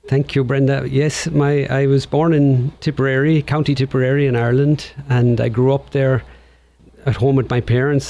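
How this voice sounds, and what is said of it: Irish accent. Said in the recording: “you have that beautiful Irish accent.”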